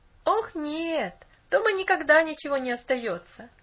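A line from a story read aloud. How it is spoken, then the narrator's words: Laughing boy. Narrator (Russian): засмеялся мальчик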